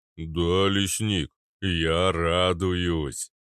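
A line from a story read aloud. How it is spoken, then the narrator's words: Deep bass voice. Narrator (Russian): пробасил Арнольд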